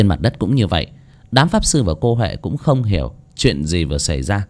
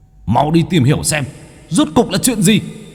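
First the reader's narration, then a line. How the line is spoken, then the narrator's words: Angry roar. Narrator (Vietnamese): bốn kẻ kia gầm lên tức giận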